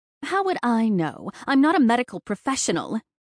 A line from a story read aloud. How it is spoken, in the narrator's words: snapped